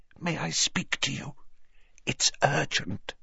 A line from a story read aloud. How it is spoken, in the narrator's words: she said in a strained whisper